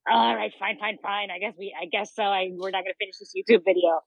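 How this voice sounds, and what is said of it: Imitates another person's voice. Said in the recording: “A really good impression of Albert ... very good impression”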